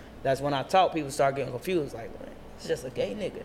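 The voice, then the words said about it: Voice not very deep. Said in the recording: “my voice is not as deep anymore ... why your voice ain't deep?”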